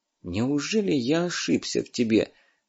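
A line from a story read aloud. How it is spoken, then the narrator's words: Sad. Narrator (Russian): грустно сказал Сушков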